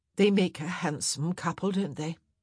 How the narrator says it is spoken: Mary murmured

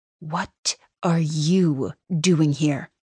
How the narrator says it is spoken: Suzette hisses

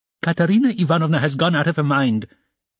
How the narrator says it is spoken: he blurted out suddenly

